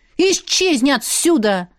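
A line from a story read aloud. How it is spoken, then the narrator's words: Angry bark. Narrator (Russian): рявкнула на него Машка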